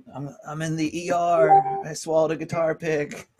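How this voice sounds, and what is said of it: Imitates another person's voice. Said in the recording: “I'm going to do an impersonation of him. ... I've got my impersonation.”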